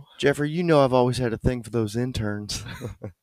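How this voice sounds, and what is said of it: Imitates another person's voice. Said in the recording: “That was good. You can nail that accent.”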